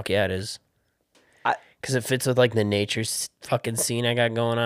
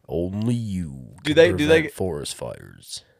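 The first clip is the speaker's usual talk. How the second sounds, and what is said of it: Deep radio announcer voice. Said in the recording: “You got a good radio voice... Good radio voices come from down below... you could actually do movie trailers”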